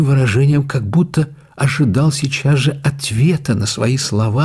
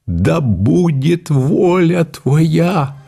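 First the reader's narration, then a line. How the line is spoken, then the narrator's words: Sudden cry, sobbing like child. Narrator (Russian): вскричал он вдруг с неподражаемым выражением, зарыдал, как ребенок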